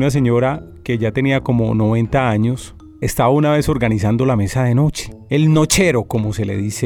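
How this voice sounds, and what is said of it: Usual voice. Nothing is said of it.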